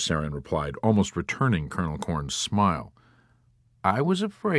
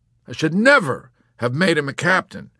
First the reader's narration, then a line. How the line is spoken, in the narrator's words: Colonel Cathcart exclaimed bitterly